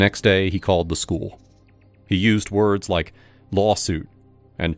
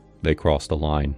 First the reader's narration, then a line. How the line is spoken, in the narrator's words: He listened quietly, and then said